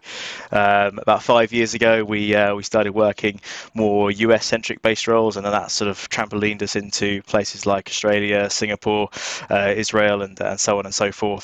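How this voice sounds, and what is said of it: English accent from near London. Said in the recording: “my accent, you can probably tell, just outside London, we're UK”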